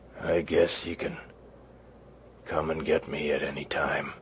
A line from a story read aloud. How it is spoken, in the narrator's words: mumbled